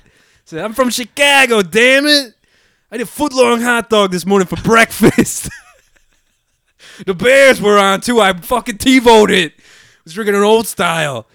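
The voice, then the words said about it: Exaggerated Chicago accent. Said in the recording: “you can do a very like good Chicago accent ... You like change your accent completely.”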